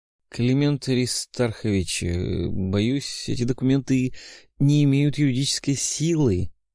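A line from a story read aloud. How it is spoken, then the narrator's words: Wary drawl. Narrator (Russian): с опаской протянул Гречкин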